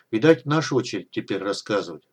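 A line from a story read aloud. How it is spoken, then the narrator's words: Sighing. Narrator (Russian): вздохнула Фифа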